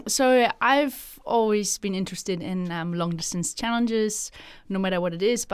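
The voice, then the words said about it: Striking German accent. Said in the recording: “a bit of an accent. Grew up in Germany. ... the accent is quite striking ... a bit of a twist and a twang every now and then”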